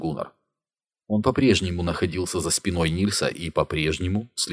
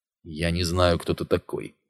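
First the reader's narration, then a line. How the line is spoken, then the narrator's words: Grumbled. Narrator (Russian): буркнул Нильс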